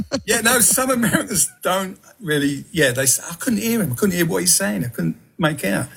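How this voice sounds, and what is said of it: Southeast London accent. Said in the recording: “I was brought up in Peckham, London, southeast London, so that's my accent.”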